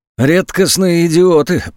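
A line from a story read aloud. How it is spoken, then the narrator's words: Grumbling. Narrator (Russian): проворчал после минутного молчания Васильков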